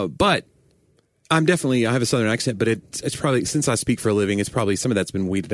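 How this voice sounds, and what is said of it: Usual voice. Nothing is said of it.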